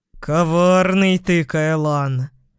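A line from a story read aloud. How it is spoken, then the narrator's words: Approving growl. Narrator (Russian): прорычал с явным одобрением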